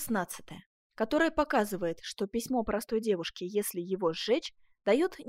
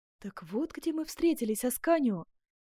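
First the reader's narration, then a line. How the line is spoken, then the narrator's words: Melodious exclamation. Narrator (Russian): воскликнула госпожа де Там своим мелодичным голосом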